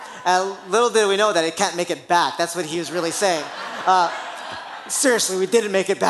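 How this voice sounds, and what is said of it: Usual voice. Nothing is said of it.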